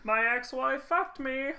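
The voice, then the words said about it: Poor impression of a comedian's voice. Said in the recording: “That is not what Carrot Top sounds like ... your Carrot Top impression, because it is not good.”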